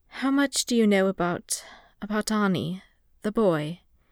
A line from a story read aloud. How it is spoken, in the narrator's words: he asked in an uncertain voice